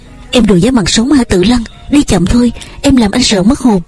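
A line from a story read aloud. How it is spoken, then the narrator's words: Calling out. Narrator (Vietnamese): Phân Phàm kêu lên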